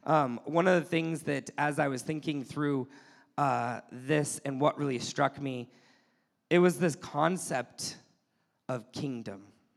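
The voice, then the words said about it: Slightly hoarse, weakened voice. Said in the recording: “my voice is still a little bit gone from this last week”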